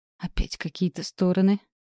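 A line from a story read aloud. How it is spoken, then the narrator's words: Vague whisper. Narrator (Russian): смутно прошептала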